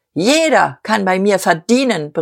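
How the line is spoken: Relentless roar. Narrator (German): brüllte Dieterich mit unverminderter Gewalt

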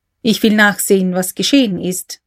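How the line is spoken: Plain. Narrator (German): sagte K

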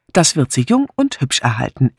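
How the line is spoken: Dry retort. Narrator (German): entgegnete Miss Blacklock trocken

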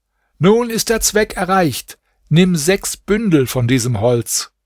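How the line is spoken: Magician calling upward. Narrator (German): Der Magier aber rief hinauf

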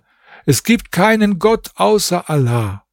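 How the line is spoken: Calling out. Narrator (German): rief

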